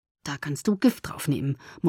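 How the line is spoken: Murmured. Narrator (German): murmelte ich

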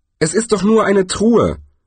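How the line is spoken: Dwarf calling out. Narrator (German): rief der Zwerg

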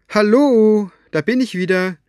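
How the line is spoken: Calling into the silence. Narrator (German): rief sie in das Schweigen hinein

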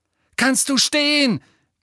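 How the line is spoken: Roaring into ear. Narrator (German): brüllte er in Nevilles Ohr

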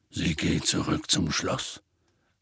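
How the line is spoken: Quiet voice. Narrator (German): sagte er mit leiser Stimme

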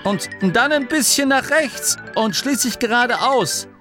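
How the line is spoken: Calling out. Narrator (German): rief Angerloh

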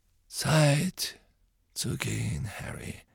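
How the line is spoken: Quiet. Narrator (German): sagte Dumbledore leise

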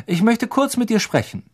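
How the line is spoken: Calling out. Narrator (German): rief Lupin

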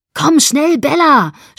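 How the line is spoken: Shouting over engine noise. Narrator (German): schrie über das Motorengeräusch hinweg

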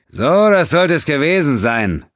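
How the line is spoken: Shouting over engine noise. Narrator (German): rief Quinn über das ansteigende Heulen der Triebwerke der Rosinante

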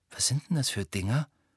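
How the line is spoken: Whisper. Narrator (German): flüsterte Ron

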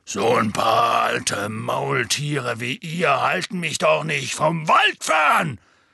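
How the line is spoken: Loud. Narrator (German): sagte Hagrid laut

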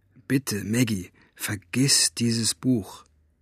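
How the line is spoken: Male murmur. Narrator (German): raunte er ihr zu

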